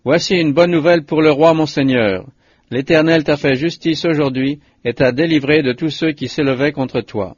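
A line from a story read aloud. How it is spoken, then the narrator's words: Messenger exclaiming. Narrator (French): le deuxième messager s'écria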